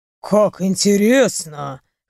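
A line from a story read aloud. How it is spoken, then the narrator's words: Snorting. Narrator (Russian): хмыкнул он через мгновение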